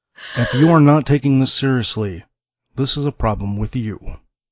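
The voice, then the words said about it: Serious public radio announcer voice. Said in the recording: “this is a very serious voice ... this is my most serious voice ... that's my NPR voice”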